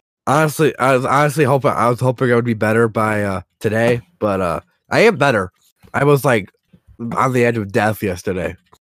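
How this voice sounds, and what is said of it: Sick-sounding, unusual voice. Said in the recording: “If you wonder why I sound weird, it's because I'm sick”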